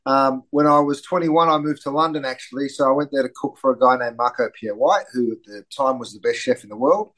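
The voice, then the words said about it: Australian accent. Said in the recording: “I grew up in Australia, which explains the slightly strange accent.”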